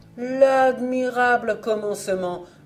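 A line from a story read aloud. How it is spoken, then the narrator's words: Plates exclaiming in unison. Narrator (French): s'écrièrent toutes les assiettes à la fois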